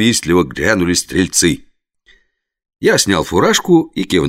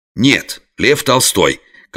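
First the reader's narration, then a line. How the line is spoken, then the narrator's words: Barking as sternly as possible. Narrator (Russian): как можно строже рявкнул я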